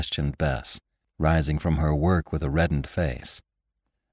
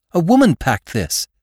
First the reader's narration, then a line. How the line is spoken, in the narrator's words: Bess exclaimed